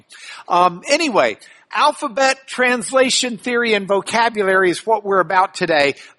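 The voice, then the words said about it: Slightly hoarse voice. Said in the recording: “I'm a little hoarse from about 10 hours of nonstop talking”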